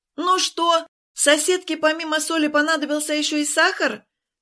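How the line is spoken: Shouted. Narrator (Russian): крикнула Ленка

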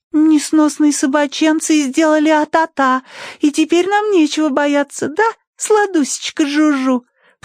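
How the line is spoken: Cooed. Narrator (Russian): проворковала Тосси

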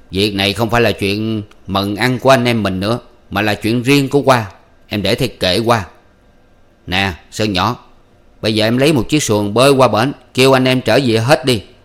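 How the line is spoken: Stern voice. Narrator (Vietnamese): Chính Thuộc mỉm cười ... nghiêm giọng nói

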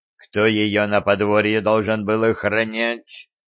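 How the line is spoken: Growled. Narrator (Russian): зарычал Виталик

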